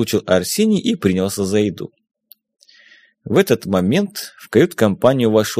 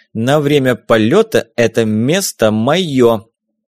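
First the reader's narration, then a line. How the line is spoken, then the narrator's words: Loud proclamation. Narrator (Russian): возвестил он громко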